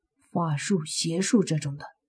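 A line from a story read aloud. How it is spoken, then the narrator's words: Whispering. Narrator (Chinese): 轻声说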